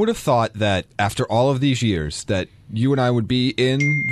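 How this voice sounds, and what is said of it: Usual voice. Nothing is said of it.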